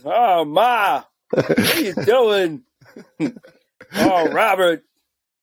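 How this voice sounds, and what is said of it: Imitates another person's voice. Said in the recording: “bad Ray Romano impression”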